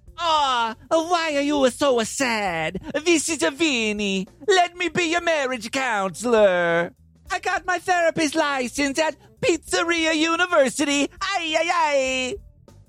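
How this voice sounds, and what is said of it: Bad put-on Italian accent. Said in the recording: “It's an awful Italian accent.”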